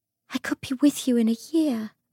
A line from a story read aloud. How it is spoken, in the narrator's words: she said, her voice almost a whisper